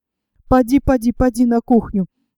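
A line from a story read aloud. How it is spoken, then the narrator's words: Quick whisper. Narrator (Russian): быстро зашептал Остерман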